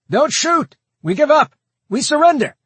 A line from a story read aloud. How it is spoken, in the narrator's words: A voice called out from within